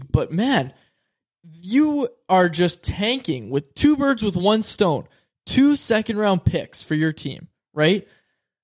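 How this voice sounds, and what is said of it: Raised, yelling voice. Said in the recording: “I'm sorry if I'm yelling a little bit”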